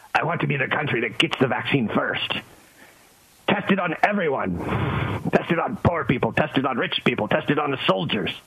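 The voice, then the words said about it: Imitates another person's voice. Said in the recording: “my impression of Putin”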